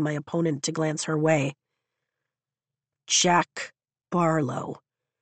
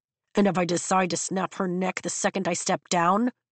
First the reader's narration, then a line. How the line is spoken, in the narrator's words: Jack growls